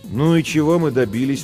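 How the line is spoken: Tired. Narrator (Russian): устало спросила Жен

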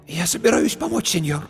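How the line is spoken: Hoarse with emotion. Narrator (Russian): Ее голос стал хриплым от волнения

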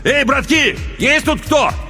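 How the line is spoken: Shout into darkness. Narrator (Russian): крикнул в темноту

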